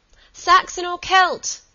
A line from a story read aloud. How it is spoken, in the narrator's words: she continued, laughing in the darkness